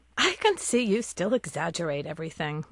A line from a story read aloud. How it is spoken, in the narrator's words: Mom chuckles